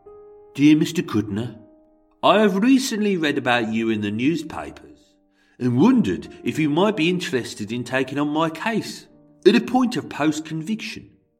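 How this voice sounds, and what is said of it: Put-on Brummie accent. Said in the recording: “because I can't do a Chicago accent, I'm going to read it in a Brummy accent. But that may, of course, slip into Scouse, Welsh, Manc”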